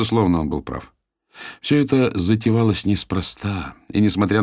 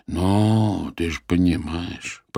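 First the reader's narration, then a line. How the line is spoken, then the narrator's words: Drawn-out drawl. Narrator (Russian): протянул Геннадий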